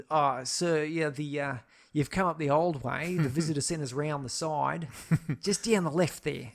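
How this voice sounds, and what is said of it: Broad put-on Australian accent. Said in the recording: “a fairly Australian accent ... putting on my Australian accent ... I normally speak with a more neutral Australian accent”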